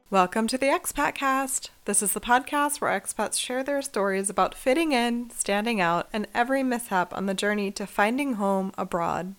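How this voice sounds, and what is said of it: Sick-sounding voice. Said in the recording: “I don't know if you can hear it in my voice. ... I am recovering from some kind of virus”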